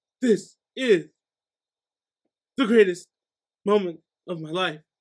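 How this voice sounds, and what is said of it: Imitates another person's voice, crying. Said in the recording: “do a real quick impression of like William Shatner like crying about going to space”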